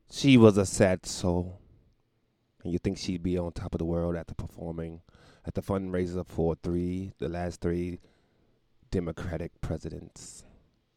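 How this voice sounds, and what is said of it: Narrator voice. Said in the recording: “narrator voice”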